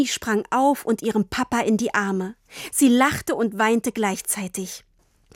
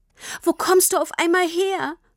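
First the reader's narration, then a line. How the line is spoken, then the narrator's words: Sobbing question. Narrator (German): fragte Tini immer noch schluchzend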